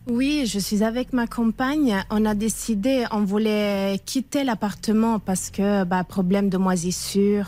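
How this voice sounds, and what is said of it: Slight Italian accent. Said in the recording (French): “D'où vient ce petit accent ... Italie.”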